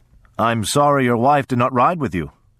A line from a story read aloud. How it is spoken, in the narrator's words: he said